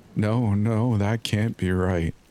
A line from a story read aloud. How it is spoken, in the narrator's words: Jenny groaned